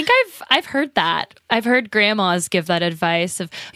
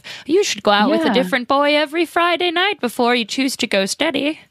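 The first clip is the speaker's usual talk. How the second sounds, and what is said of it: Elderly grandma character voice. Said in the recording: “That's my grandma voice.”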